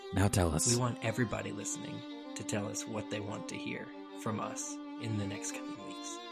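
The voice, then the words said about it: Whispering. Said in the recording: “Why are we whispering? ... you've heard us whisper.”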